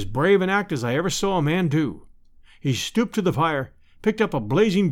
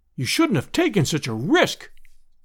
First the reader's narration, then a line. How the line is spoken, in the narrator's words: we all cried